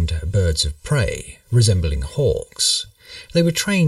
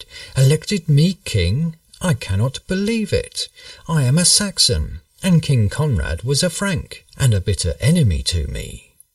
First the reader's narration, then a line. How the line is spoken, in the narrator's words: he exclaimed